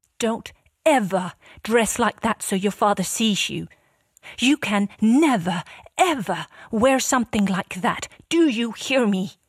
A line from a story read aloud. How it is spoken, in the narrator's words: her calm face changes, and before he reacts, she has run out to meet him and yells